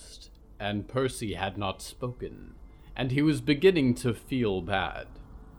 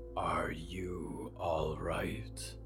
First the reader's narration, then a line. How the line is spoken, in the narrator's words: Diggory rasped quietly